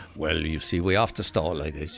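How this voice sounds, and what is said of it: Put-on Welsh accent. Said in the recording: “I can never do the Welsh accent for long.”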